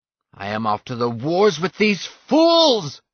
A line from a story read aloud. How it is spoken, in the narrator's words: shouted Atil